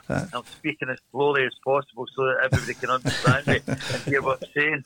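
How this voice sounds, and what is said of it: Strong Glaswegian accent. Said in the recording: “It's a Glaswegian accent, and a very strong one at that.”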